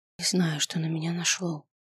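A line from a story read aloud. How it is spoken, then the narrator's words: Whispered confession. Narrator (Russian): призналась я шепотом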